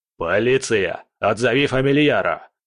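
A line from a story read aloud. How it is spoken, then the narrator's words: Barked. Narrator (Russian): рявкнул Кретов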